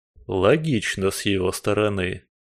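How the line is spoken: Through gritted teeth. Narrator (Russian): сквозь зубы процедил Коган

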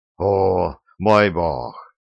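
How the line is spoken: Breathless exhale. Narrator (Russian): выдохнул шофер, чтобы хоть немного отдышаться

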